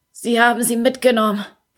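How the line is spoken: Croaked. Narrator (German): krächzte er

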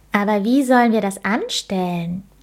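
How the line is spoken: Calling out. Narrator (German): Leo rief

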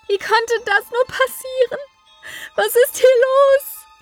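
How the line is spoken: Grief-stricken scream. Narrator (German): schrie, ergab sich ihrer Trauer und ihrem Schmerz

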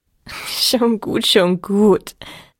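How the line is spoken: Laughing. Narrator (German): lachte Alpina

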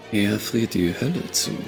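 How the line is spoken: Muttering while walking. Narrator (German): murmelte Ashlyn im Gehen

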